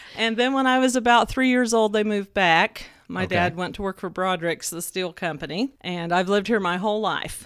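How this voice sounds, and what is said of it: Southern American accent. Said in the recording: “I just never dropped the accent... I sound so Southern... you are very Southern”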